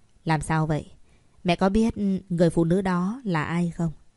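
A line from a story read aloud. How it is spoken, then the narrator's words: Cold male voice. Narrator (Vietnamese): Giọng điệu của anh lạnh lùng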